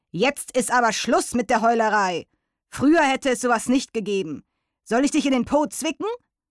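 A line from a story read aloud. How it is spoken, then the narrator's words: Stern elderly voice. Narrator (German): der alte Hirschkäfer sagte streng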